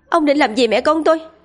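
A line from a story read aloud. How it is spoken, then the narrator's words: Loud shout. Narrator (Vietnamese): Tơ Lộ hét lớn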